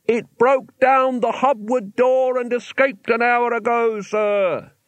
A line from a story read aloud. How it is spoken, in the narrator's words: he yelled